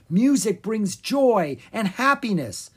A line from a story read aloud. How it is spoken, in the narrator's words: his teacher said excitedly